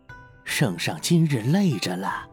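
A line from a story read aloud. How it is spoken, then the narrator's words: Hushed, low voice. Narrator (Chinese): 压低声音道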